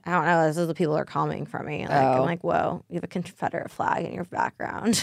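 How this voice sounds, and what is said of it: Trailer park accent. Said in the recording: “Trailer park... my accent... I don't care if you don't like my accent”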